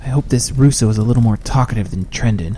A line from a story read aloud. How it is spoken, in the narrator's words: muttered Jack in frustration